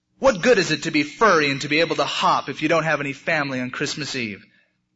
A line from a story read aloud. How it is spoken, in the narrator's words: Barrington cried and cried